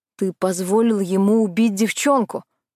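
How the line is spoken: Angry. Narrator (Russian): зло заговорил Тони

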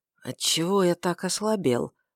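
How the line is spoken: Tired mutter with sigh. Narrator (Russian): пробормотал он с усталым вздохом

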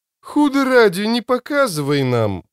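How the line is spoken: Exclaiming. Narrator (Russian): воскликнул Мурилью

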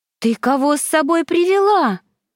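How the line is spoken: Young girl's exclamation. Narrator (Russian): воскликнула младшая сестренка

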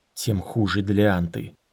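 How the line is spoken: Grumbling mutter. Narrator (Russian): буркнул Дорин

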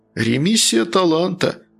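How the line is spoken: Philosophical sigh. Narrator (Russian): философски вздыхал Натан Львович

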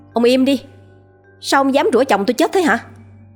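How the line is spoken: Loud angry shout. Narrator (Vietnamese): Cô con dâu ông Miền hét lớn

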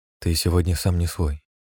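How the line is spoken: Quiet, muffled. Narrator (Russian): тихо проговорила Алина, щекой прикладываясь к моей спине

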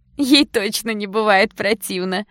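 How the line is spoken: Laughing girl. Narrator (Russian): Засмеялась ещё какая-то девушка

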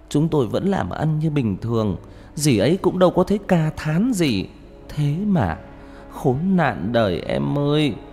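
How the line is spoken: Tearful, whimpering. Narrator (Vietnamese): Người chị gái mếu máo

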